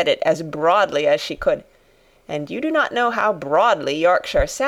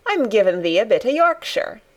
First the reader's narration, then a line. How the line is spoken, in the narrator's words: answered Mary triumphantly